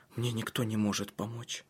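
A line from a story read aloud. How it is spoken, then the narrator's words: Whisper. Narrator (Russian): прошептала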